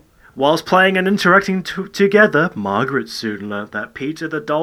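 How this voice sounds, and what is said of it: Usual voice. Nothing is said of it.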